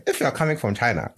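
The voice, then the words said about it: Put-on Chinese accent. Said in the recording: “you have a Chinese accent ... it actually sounds Chinese”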